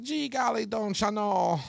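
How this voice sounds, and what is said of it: Put-on Minnesota accent. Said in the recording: “what the fuck kind of accent was that? ... Minnesota”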